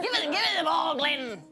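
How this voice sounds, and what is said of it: Put-on Scottish accent. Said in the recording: “What accent was that? Was that Scottish? ... Scottish.”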